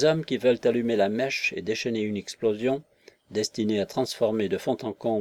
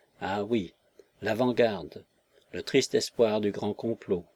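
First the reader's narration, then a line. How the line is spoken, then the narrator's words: Murmuring to himself. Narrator (French): murmura-t-il en lui-même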